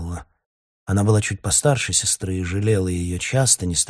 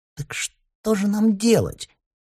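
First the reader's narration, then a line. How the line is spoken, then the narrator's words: Squeak. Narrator (Russian): пискнула Ксения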